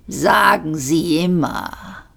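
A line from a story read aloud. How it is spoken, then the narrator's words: Growling. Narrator (German): knurrte der Vogone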